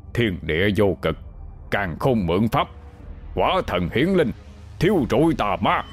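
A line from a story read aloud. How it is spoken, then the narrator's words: Rapid muttered incantation. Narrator (Vietnamese): Ông miệng lẩm bẩm thần chú nhanh như gió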